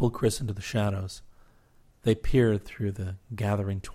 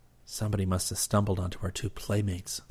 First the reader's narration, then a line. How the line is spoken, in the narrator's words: Chris whispered